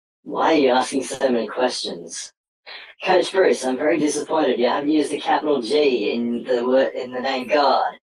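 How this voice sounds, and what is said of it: Electronically altered voice. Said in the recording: “voice changer”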